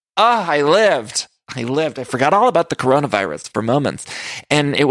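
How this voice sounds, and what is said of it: Usual voice. Nothing is said of it.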